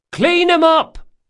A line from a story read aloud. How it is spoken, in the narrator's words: shouted Del Mastro